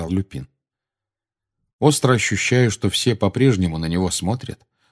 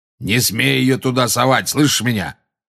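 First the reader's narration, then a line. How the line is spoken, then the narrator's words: Roared. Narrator (Russian): проревел Грюм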